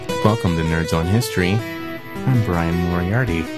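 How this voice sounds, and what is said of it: Creepy, constantly smiling voice. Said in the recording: “Why are you talking like a creep? ... how things sound when you don't stop smiling.”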